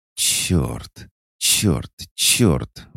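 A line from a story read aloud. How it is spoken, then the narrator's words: Strained exhale. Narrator (Russian): выдохнула она, пытаясь сконцентрироваться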